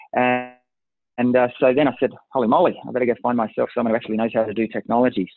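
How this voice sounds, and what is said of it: Unusual foreign-sounding accent. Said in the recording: “strange accent”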